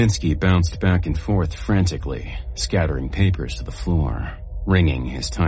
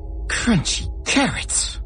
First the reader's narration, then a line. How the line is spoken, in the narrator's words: the chief shrieked